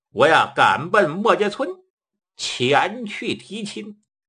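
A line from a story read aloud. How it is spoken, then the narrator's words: With a laugh. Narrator (Chinese): 一笑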